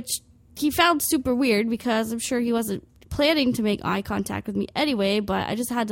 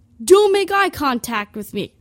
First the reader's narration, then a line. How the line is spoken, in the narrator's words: I just yell